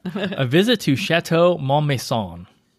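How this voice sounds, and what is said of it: Put-on French accent. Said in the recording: “I even did that with a little French accent, a little twist there.”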